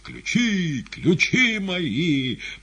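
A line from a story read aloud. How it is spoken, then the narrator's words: Wheezing. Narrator (Russian): хрипя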